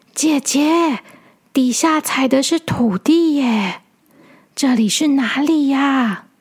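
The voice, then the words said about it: Quiet, hushed child's voice. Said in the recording (Chinese): “小扑小声的说”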